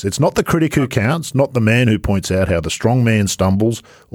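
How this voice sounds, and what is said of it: Australian accent. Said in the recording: “I'm speaking Australian.”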